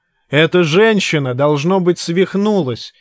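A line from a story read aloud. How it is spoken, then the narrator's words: Barking. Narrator (Russian): рявкнула Абара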